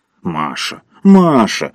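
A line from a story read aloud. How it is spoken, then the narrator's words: Reproachful deep boom. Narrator (Russian): укоризненно прогудел негр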